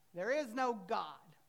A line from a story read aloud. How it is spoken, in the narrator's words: the atheist neighbor next door would yell back